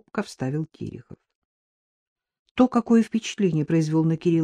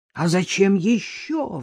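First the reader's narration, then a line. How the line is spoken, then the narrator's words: Roar. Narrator (Russian): взревел Дедков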